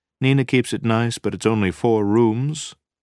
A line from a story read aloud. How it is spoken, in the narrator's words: he added dryly